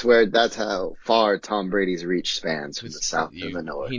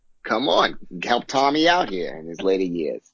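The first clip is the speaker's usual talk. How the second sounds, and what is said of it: Exaggerated Boston masshole accent. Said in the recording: “You just went from a southern accent to a freaking masshole.”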